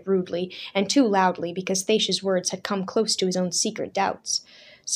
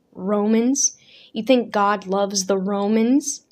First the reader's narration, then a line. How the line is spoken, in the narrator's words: Thacia sighed